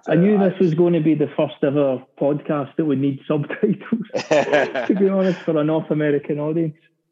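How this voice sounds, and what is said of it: Speaks with a distinctive accent. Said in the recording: “it's a beautiful accent”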